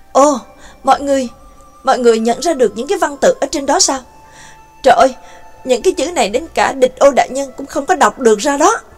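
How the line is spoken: Astonished exclamation. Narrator (Vietnamese): cô liền kinh ngạc kêu lên

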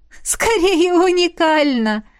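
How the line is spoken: Burst out laughing. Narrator (Russian): расхохоталась она

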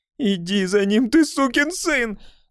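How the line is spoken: Strained furious shout. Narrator (Russian): крикнула она, и на ее висках проступили синие вены

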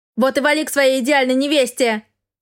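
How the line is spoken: Shout. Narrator (Russian): крикнула я

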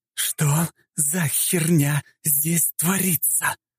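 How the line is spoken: Slow, deliberate whisper. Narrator (Russian): Членораздельно и медленно прошептала Фрея

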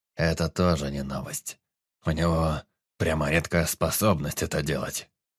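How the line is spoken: Wry snort. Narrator (Russian): хмыкнул Эдмир

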